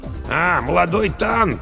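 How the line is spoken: Hoarse mutter. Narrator (Russian): хрипло пробормотал Бонно

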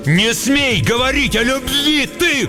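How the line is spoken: Shouted. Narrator (Russian): крикнул Шут

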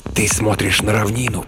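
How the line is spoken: Hissing. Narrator (Russian): прошипел Стоун

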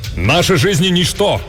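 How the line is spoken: Exclaiming. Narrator (Russian): воскликнул Канао, правая рука Беарвальда

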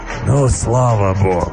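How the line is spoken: Joyful relieved exhale, beast. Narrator (Russian): радостно, как мне показалось, выдохнул зверь

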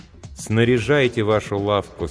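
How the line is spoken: Plain. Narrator (Russian): сказал голос

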